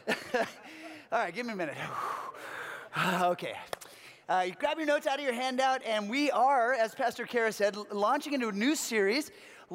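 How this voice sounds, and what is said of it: Slightly out of breath speaking. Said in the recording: “I'm a little out of breath because I just ran down from that space”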